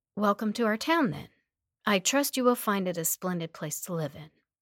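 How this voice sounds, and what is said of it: Flat monotone delivery. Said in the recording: “in a monotone voice”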